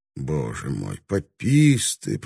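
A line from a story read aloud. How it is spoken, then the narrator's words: Muttered. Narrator (Russian): пробормотал кто-то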